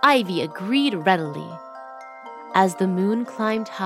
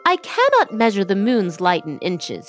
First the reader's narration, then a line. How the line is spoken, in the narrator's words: said